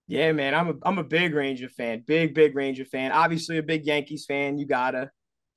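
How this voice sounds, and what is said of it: Thick Bronx New York accent. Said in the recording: “You got that thick accent ... You're from the Bronx”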